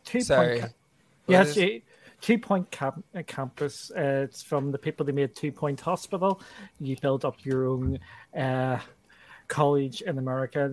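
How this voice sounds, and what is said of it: Speaker with a noticeable accent. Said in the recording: “You were saying campus. I thought you were saying compass. ... The accent got me.”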